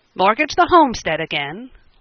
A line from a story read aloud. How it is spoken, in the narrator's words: Lou cried